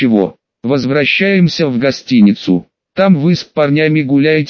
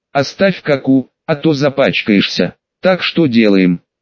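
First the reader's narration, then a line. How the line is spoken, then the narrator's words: Uncertain question. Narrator (Russian): неуверенно спросил Скули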